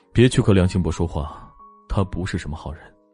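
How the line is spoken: Low, deep voice. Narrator (Chinese): 莫千行 声音低沉

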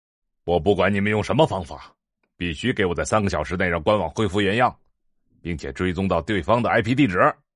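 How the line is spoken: Angry. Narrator (Chinese): 首席 C E O 怒声道

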